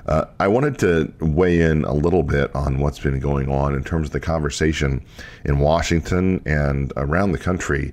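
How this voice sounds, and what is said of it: Slightly sick-sounding voice. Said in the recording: “I'm a little under the weather ... my voice sounds a little different than normal”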